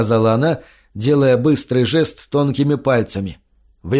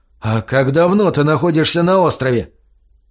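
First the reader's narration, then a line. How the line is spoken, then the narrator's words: Exclaimed. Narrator (Russian): воскликнул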